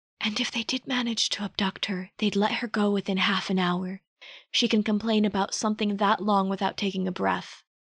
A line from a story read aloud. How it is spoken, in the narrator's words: Bert leaned in and whispered